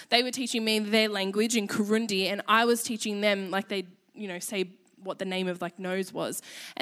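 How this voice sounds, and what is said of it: Australian accent. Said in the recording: “laugh at my accent ... I realized how Aussie my voice is ... I didn't realize how Aussie I was, but apparently I am”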